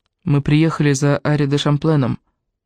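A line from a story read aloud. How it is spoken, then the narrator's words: Soft. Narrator (Russian): мягко сказал Раби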